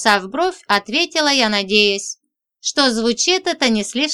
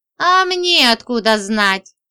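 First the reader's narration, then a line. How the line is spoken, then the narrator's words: Giggling. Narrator (Russian): хихикнул он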